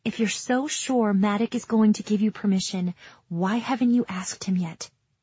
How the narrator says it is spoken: Taryn whispers

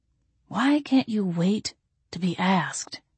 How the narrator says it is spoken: he muttered

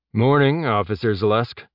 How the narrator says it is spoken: Jeb said, keeping his tone as neutral as possible

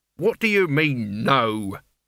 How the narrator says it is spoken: growled Albert

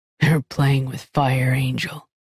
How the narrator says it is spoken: he said gruffly

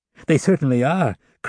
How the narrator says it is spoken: cried Madame Magloire

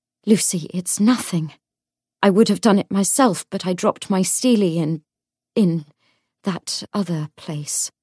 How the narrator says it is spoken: She gasped and said

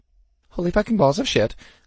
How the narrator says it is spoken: I squeaked

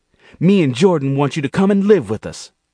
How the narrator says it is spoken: Monique looked encouraged, took a deep breath, and blurted

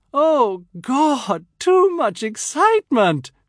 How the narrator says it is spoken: she cries

